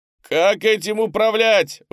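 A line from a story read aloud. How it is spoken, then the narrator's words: Yelling while hanging upside down. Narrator (Russian): вопил болтающийся вниз головой панда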